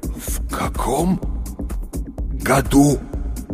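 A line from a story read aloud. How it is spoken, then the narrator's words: Forced out through clenched jaws. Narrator (Russian): Наконец выдавил он, с усилием сводя челюсти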